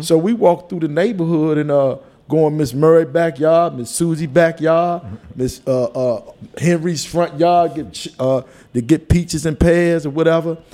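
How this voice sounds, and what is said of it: Country Washington DC accent. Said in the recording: “I talk with an accent, that was the country over there”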